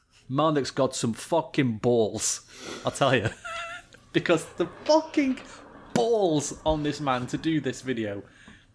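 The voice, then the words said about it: Sopranos-style mobster accent. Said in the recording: “one of my amazing accents ... In my best Sopranos voice”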